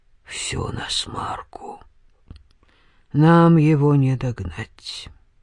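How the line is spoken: Gloomy. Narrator (Russian): войшелк мрачно сказал

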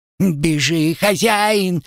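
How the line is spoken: Squealing. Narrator (Russian): взвизгнул Родька

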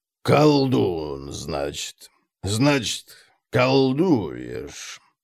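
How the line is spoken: Drawling. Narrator (Russian): протянул Конрад

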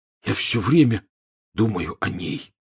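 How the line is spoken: Hoarse. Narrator (Russian): хрипло сообщил Рон

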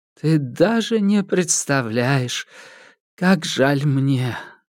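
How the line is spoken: Old woman's sigh. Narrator (Russian): вздохнула старуха

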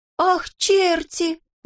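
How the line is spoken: Exclaimed. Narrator (Russian): воскликнул Козлик

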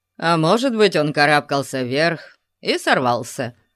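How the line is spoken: Grumbling. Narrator (Russian): проворчал Конан

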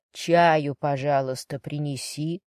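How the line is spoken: Soft. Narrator (Russian): мягко произнес мистер Гаррет

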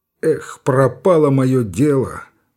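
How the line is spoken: Glum, dejected. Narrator (Russian): уныло сказал Александров

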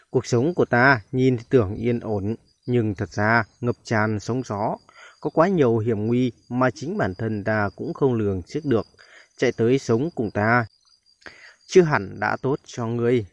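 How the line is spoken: Sighing. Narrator (Vietnamese): Cao Cường thở dài và nói

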